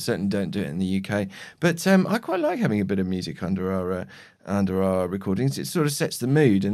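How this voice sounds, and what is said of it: Usual voice. Nothing is said of it.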